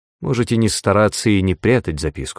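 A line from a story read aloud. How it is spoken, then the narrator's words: Plain. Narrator (Russian): сказал он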